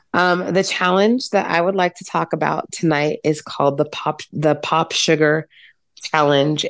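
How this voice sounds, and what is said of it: Voice affected by illness. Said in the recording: “please forgive my voice,... I am getting better from being under the weather”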